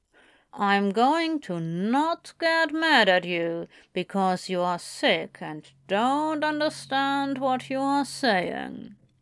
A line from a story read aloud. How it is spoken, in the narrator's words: he said slowly, the intensity in his voice